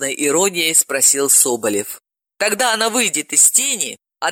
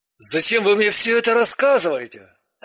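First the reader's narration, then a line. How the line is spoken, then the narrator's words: Irritated question. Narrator (Russian): раздраженно спросил Соболев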